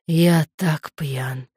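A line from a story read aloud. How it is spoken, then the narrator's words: Groaned. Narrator (Russian): простонал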